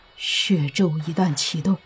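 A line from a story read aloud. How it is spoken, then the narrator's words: Trembling voice. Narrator (Chinese): 阿图声音有些颤抖的说道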